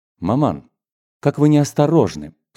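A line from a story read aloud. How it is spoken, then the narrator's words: Reproachful, almost stern. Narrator (Russian): с упреком почти строго произнесла Марья Николаевна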